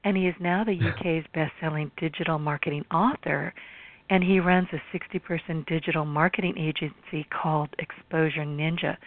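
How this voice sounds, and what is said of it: Strained, hoarse voice. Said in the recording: “I'm losing my voice here.”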